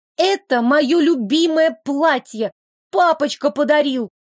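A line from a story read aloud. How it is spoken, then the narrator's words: Shrieking. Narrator (Russian): Кикимора в ответ только визжала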